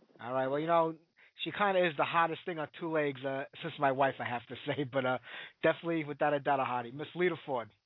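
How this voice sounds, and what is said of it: New York accent. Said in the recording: “I'm in New York, if you can't tell by the accent. ... Oh, yeah, I hear it.”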